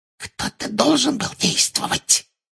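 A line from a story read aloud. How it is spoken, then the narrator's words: Whisper. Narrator (Russian): прошептала Амбридж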